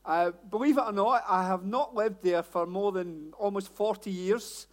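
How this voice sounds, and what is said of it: Glasgow Scottish accent. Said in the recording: “my accent is not London, Hellingdon, any of that. Born and bred in Glasgow. ... I know the accent sounds as though I've just got off the bus”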